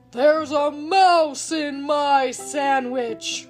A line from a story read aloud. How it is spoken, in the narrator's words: roared the giant